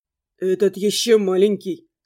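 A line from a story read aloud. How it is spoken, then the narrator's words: Hmph. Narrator (Russian): хмыкнул Реван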